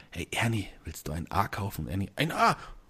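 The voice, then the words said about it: Quiet whispering puppet character voice. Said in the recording (German): “immer so leise geflüstert”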